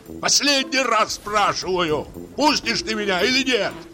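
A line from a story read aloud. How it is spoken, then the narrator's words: Sudden piercing shout. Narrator (Russian): Крикнул вдруг пронзительным голосом, точно кричал в поле на ямщика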